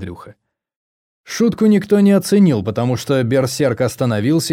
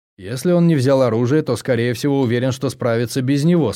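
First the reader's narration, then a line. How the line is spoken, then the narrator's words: Plain. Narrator (Russian): сказал я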